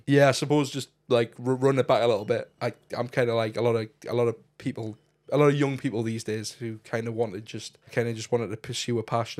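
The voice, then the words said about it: Northeast English accent. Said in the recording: “accent, he's from the Northeast.”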